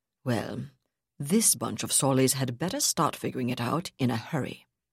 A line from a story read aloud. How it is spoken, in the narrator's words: Zavala said grimly